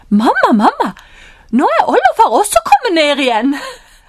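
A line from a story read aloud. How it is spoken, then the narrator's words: Called out. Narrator (Norwegian): så roper han til mammaen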